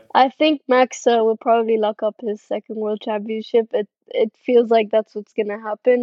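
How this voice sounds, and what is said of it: Italian accent. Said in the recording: “your Italian accent is perfect.”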